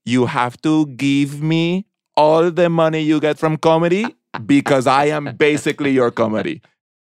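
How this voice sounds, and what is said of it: Put-on Colombian accent. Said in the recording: “she's Colombian, so I'm going to do an accent”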